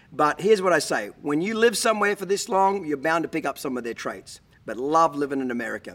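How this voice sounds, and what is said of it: Australian accent, partly faded. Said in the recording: “I am an Australian and I've lived here for 25 years and I've lost a lot of my accent, picked up some accent from some other places”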